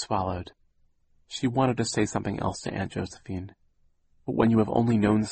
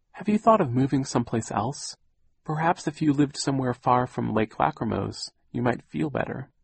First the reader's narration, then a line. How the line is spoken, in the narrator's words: she said timidly